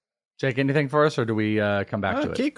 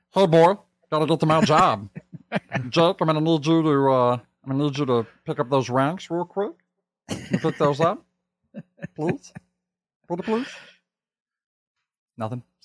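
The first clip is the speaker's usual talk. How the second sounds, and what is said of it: Meatwad impression. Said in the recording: “my number one impression, at least I think in the world, is my Meatwad impression”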